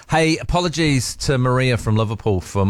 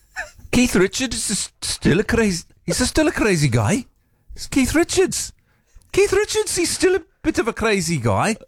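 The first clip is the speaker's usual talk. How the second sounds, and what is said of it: Poor Liverpool accent impression. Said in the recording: “my attempt at that Paul McCartney accent... She said that was terrible... I think that was way worse, mate.”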